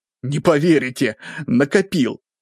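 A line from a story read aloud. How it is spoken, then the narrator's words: Laughing. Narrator (Russian): засмеялся Попов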